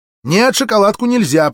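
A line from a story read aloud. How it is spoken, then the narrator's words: Mother's sharp scolding. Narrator (Russian): прикрикнула мать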